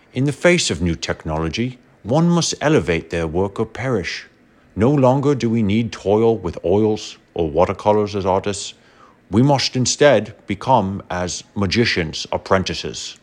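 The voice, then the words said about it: Bad Michael Caine impression. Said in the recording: “in a terrible John Wayne accent. ... in an even worse Michael Caine”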